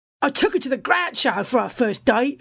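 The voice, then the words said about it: Deliberately bad put-on accent. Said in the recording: “I'm equally bad at all accents”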